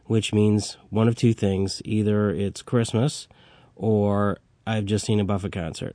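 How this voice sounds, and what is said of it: Congested voice with a cold. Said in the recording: “As you can tell, I have a cold”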